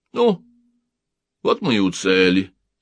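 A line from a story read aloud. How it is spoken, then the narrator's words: Calm. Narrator (Russian): спокойно тут же сказал он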